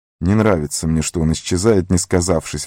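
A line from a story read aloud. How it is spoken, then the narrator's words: Grumbling. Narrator (Russian): ворчал Сэм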